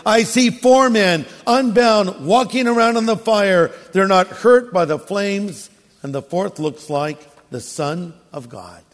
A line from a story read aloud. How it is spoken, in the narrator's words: Nebuchadnezzar shouted